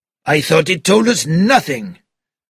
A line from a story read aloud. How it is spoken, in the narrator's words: cried Bouc